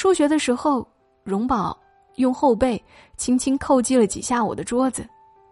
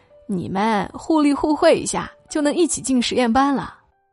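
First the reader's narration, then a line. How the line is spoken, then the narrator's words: Joking. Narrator (Chinese): 有人开玩笑说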